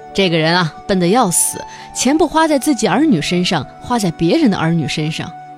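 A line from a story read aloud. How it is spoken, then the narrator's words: Mocking. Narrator (Chinese): 他的本家嘲笑他说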